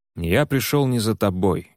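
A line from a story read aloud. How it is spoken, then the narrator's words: Rude reply. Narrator (Russian): грубо ответил он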